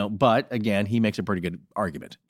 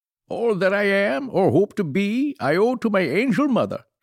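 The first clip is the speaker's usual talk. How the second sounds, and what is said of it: Goofy imitation of another person's voice. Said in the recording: “why are you saying it in such a goofy voice? ... my impression of Daniel Day-Lewis doing his impression of Lincoln”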